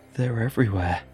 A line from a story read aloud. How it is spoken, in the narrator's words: gasped Rog